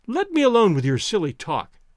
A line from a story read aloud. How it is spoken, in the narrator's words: cried Toinette gaily